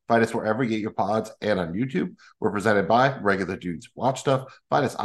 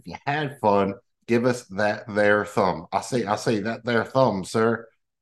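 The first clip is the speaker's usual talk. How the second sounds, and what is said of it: Put-on Southern accent. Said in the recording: “I snuck in the southern accent.”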